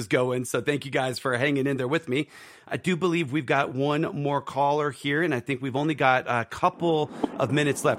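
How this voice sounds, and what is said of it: Strained, failing hoarse voice. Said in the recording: “wouldn't lose my voice, and it's I'm barely hanging on here. My voice is”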